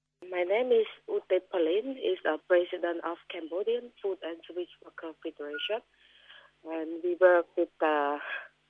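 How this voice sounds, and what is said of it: Heavy accent speaking English. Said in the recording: “she speaks English with a heavy accent”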